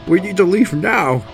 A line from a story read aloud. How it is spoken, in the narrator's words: he shouted